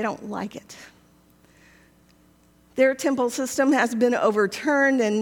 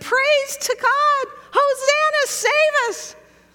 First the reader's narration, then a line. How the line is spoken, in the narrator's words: kids screaming